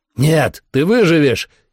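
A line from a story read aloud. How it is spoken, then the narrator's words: Shouted. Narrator (Russian): крикнул я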